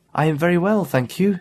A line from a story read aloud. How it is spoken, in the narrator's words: said Barbara